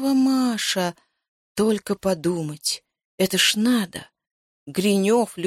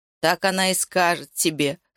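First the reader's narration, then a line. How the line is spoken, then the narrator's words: Skeptical snort. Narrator (Russian): хмыкнул Яша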